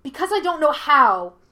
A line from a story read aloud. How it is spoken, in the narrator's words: Yue shouted